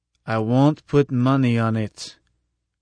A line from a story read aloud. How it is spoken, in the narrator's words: said slowly